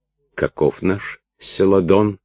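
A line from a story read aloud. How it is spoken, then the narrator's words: Whisper. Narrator (Russian): шепнул Христианик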